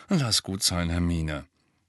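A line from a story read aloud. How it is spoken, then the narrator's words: Muttering. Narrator (German): Ron murmelte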